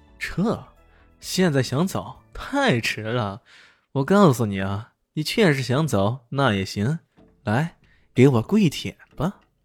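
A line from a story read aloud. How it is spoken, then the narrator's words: Hearty laugh. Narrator (Chinese): 何建明已经哈哈一笑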